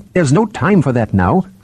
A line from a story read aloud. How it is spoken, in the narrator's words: snapped Chiron impatiently